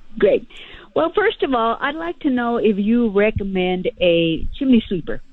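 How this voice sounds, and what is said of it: Raspy voice. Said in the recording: “I've got kind of a raspy voice”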